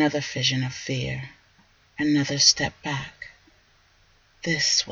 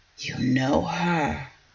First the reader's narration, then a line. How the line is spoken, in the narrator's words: he whispered